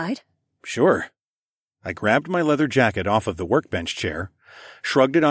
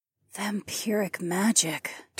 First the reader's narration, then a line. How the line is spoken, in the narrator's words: Taslin breathed